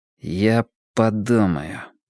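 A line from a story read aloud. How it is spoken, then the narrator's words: Slow, through gritted teeth. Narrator (Russian): медленно процедил я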